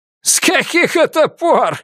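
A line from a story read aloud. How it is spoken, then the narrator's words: Bursting out laughing. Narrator (Russian): расхохотался Люсьен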